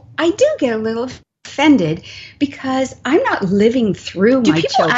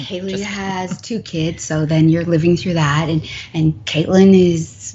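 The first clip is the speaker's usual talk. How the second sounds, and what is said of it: Radio announcer voice. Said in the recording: “You're using your radio voice.”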